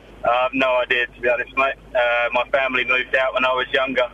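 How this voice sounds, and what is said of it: Deep English voice, slight Australian twang. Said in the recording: “I'm hardly picking up any Australian accent... You sound like a 40-year-old man. You've got a very masculine voice. I'm getting a little hint of Australian coming through... There's a slight twang... There's an Australian twang, but it's primarily English”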